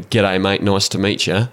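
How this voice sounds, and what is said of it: Thick put-on Australian accent. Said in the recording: “put on a thick Australian accent, even though I'm a Kiwi”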